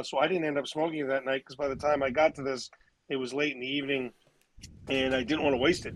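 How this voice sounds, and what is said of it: Hoarse, strained voice. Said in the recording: “lost my voice,”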